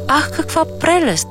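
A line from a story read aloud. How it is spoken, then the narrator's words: Strange foreigner exclaiming. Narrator (Bulgarian): възкликна странния чужденец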